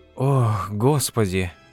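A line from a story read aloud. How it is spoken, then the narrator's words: Breathless exhale. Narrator (Russian): выдохнула Глория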